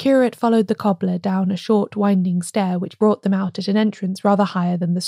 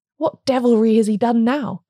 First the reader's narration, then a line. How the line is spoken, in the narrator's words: cried, in voluntary passion